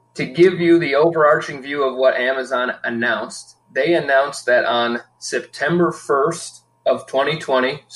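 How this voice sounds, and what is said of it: Soothing golden radio voice. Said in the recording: “your very soothing golden radio voice.”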